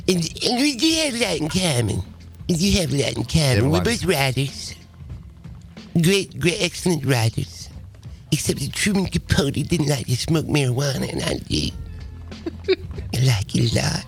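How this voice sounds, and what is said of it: Bad Mike Tyson impression. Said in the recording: “possibly the worst Mike Tyson impersonation”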